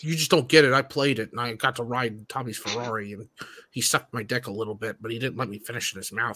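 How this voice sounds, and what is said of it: Imitates another person's voice. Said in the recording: “That was a pretty good impression.”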